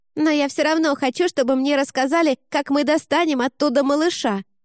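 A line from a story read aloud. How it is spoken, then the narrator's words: Shouted while receding. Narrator (Russian): крикнула она, скрываясь в коридоре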